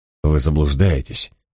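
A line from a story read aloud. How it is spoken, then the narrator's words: Soft gentle voice. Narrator (Russian): мягко произнес я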